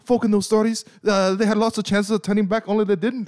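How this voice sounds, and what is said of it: Impression of Sam, English accent. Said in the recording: “with his English accent too, that wasn't really strong either. I think he's an American doing an English accent”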